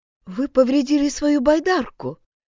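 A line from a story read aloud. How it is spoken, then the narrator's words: Surprised. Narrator (Russian): удивилась Тора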